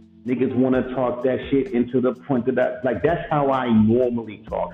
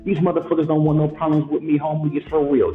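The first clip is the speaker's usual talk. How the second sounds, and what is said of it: Hyped-up, energetic delivery. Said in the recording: “you wanna be hype? ... That's me being hype.”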